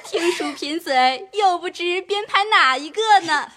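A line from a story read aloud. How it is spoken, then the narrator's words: Laughing, in chorus. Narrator (Chinese): 众人已经笑了，都说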